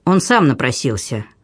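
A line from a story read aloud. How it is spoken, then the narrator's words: Surprisingly firm voice. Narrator (Russian): отвечал граф Урас на удивление твердым голосом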